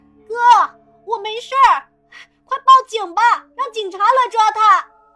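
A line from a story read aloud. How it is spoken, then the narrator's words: Anxious shouting. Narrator (Chinese): 小青生怕哥哥闹出人命 只能在旁边喊道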